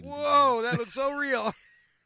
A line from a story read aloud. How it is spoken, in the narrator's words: keep yelling